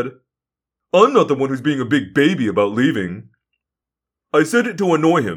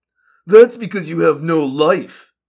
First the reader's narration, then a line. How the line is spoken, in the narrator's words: Tom sneered